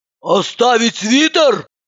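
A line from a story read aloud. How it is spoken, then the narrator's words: Screaming. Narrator (Russian): завопила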